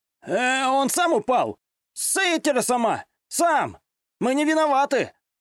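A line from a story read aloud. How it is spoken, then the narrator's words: Very nervous shout. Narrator (Russian): Очень уж нервно закричал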